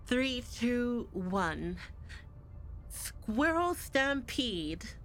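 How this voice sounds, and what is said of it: Squirrel Girl character voice. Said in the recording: “good Squirrel Girl impression”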